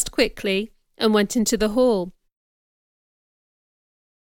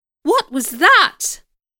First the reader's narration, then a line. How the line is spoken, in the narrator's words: cried one of the ladies